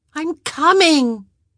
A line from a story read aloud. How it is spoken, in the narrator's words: Posy called out